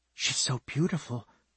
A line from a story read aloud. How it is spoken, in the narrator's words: she whispered